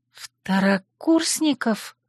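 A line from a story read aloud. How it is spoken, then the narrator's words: Knowing whisper. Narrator (Russian): понимающе прошептала я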